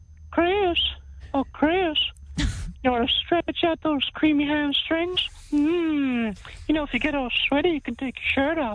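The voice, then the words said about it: Creepy cartoon character voice. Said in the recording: “a pretty good impression of Herbert the Pervert from Family Guy ... That's creepy ... This is terrifying.”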